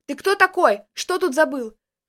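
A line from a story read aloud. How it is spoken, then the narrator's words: Shout. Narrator (Russian): крикнула она мне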